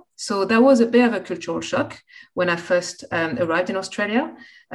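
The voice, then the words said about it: French-accented English. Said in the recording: “my accent, which was an asset in England, became a bit of a hurdle when I first arrived in Australia ... people would take a few minutes to tune into my accent”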